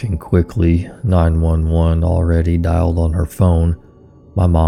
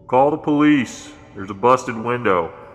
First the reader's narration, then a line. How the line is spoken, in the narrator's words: As soon as he was close enough for us to hear, he shouted